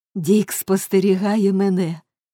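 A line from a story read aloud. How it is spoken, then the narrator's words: Laughing. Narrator (Ukrainian): засміялася Ніколь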